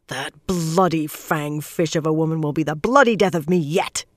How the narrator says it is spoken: she growled

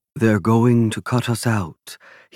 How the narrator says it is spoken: he sighed to his trusted confidant Alessandro Bonucci

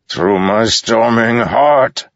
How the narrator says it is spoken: Balaam shouted, spraying bloody spittle

